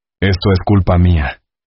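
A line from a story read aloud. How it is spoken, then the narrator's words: Broken voice. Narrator (Spanish): dijo con la voz rota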